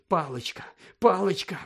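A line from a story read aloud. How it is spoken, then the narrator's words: Muttering. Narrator (Ukrainian): бурмотів Гаррі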